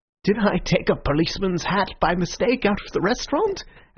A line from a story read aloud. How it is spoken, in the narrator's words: asked Syme, smiling wildly